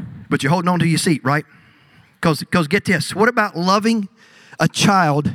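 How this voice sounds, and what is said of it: Usual voice. Nothing is said of it.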